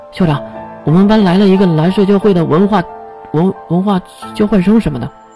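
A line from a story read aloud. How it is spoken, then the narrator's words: Hurried. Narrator (Chinese): 月急忙说道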